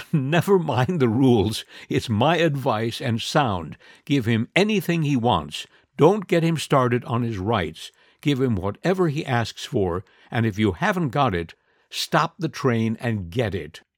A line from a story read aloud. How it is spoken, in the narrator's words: he laughed and said